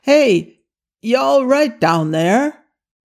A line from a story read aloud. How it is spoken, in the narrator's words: a voice above yell